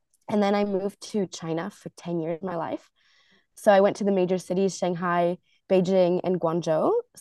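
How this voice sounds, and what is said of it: Slight American accent. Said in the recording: “there's a bit of an American accent”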